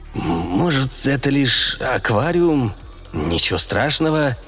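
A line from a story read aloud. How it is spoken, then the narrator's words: Choked hoarse wheeze. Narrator (Russian): Леня сглотнул, задушенно прохрипев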